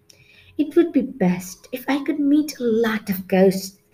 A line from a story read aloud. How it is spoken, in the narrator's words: murmured